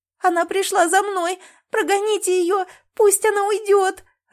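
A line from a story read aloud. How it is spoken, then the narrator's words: Sobbing. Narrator (Russian): рыдала Леночка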